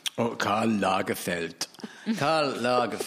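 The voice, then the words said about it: Comedy German accent. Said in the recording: “That was a comedy German accent”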